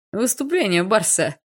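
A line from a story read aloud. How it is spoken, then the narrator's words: Chuckling. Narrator (Russian): хохотнул Леха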